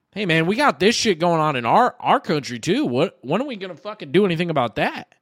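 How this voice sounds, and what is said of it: Slight put-on Southern accent. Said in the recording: “you had like a little, you had like a little Southern accent.”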